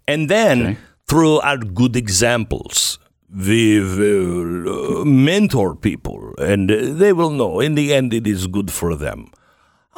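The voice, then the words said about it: Spooky German accent. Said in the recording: “that really spooky German accent.”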